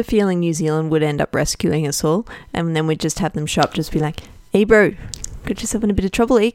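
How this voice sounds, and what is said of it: Put-on New Zealand accent. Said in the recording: “That's my New Zealand accent.”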